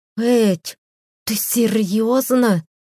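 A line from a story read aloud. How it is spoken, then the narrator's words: Hiss. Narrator (Russian): прошипела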